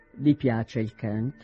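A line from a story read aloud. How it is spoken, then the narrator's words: Colder tone. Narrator (Italian): disse in tono più freddo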